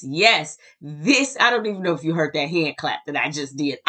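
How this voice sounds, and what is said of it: Excited, energetic speaking voice. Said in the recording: “hear the excitement in my voice.”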